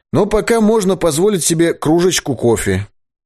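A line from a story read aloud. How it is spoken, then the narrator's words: Cheerful remark. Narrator (Russian): весело заметил Крутиков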